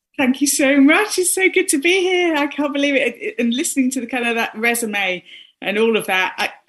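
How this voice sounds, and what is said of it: British accent. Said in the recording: “accent, I'm trying really hard not to sound like Mary Poppins.”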